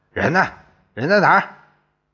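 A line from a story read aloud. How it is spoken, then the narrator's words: Loud. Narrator (Chinese): 大声说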